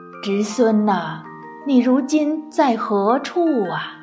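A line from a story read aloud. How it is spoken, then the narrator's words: Long lamenting sigh. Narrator (Chinese): 他不由得仰天长叹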